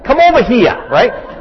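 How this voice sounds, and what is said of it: Put-on Brooklyn Jewish accent. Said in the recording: “That was my Brooklyn Jewish accent.”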